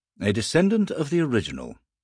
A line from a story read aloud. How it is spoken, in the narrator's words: Blake said